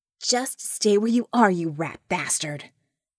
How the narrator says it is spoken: Vicky snarled in John's ear

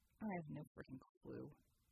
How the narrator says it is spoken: Red muttered

